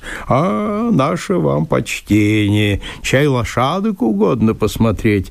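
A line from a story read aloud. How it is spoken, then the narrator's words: Sing-song. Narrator (Russian): нараспев произнес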